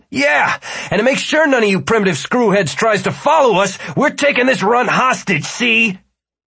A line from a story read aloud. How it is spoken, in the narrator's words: Martin yelled